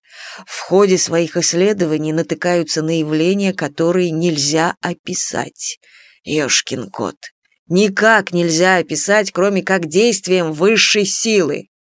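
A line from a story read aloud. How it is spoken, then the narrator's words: Whispering. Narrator (Russian): зашептал Василий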